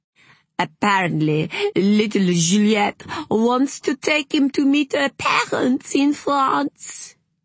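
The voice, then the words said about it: Put-on French accent. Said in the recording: “putting on a French accent.”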